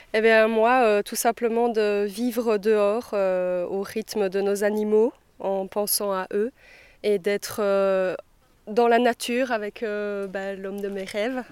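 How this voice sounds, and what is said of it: Slight Belgian French accent. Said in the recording (French): “Vous avez un petit accent ... Oui, de Belgique.”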